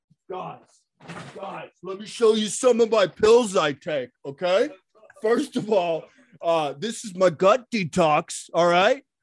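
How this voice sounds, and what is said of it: Imitates another person's voice. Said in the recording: “my quick Sam Tripoli impression”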